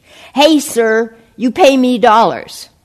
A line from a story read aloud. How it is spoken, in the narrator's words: The rickshaw driver excitedly shouted after him in broken but clear English